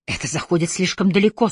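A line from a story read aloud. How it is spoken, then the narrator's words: Strained, convulsive. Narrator (Russian): судорожно выдавил Пилгрим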